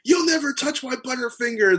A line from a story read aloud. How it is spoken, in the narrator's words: screams